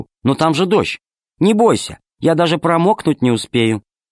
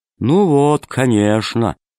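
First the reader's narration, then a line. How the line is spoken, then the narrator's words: Gloomy voice. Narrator (Russian): сказал мрачно Зеленый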